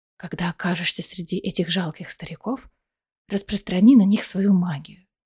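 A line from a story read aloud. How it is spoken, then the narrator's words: Whisper in ear. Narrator (Russian): Аэлина ... шепнув ей на ухо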